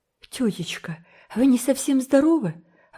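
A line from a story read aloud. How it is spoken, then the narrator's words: Exclaimed. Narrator (Russian): воскликнула Энн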